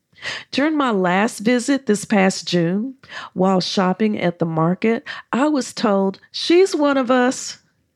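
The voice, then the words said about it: American English accent. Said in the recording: “My American accent does set me apart from the locals”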